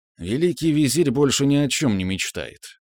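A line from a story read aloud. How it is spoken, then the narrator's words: Sullen mutter. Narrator (Russian): хмуро буркнул мужчина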